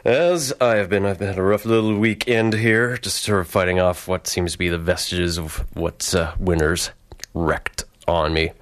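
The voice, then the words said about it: Hoarse voice. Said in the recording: “You have another equally hoarse host here”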